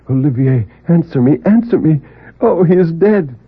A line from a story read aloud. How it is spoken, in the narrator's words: cried out repeatedly